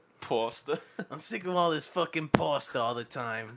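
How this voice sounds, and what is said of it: Put-on Boston accent. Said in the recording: “You think I could do a Boston accent for a full day?”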